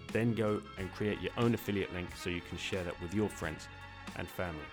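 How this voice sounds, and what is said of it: British accent. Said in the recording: “this weirdo British accent”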